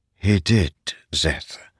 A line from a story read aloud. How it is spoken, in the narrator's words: she said softly